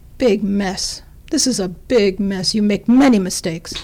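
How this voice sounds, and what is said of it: Heavy Russian accent impression. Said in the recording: “he's Russian ... I do imitations of him ... Heavy Russian accent.”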